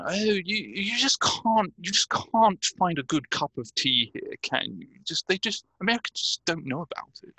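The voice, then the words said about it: Exaggerated English accent. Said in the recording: “Was that an English man doing an English accent? ... Yeah, I was just laying it on a little bit more thickly than usual.”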